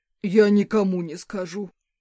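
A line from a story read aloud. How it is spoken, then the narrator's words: Attorney promising. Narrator (Russian): пообещал поверенный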